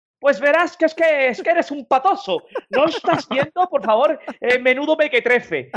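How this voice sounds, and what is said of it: Put-on Madrid Spanish accent. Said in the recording (Spanish): “me gusta tu imitación de los madrileños”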